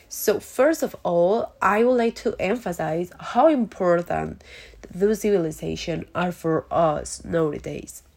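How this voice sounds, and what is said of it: Voice affected by a cold. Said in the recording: “sorry for my voice, but I have a little cold”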